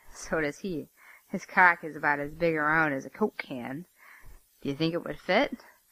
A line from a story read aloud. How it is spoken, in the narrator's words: Ken laughed and said